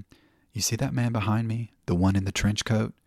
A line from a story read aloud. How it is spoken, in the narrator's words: In a much lower, confidential whisper, I said to him